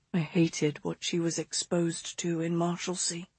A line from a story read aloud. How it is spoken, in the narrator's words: August mumbled